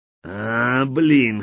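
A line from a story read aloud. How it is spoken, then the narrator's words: Hoarse croak. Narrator (Russian): хрипнул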